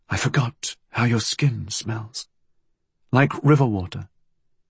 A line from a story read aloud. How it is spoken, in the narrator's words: her murmur